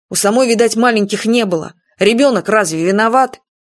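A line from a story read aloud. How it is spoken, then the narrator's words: Firm, weighty tone. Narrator (Russian): Юрка внушительно сказал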